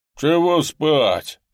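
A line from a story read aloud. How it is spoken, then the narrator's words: Grumbling. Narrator (Russian): проворчал Никита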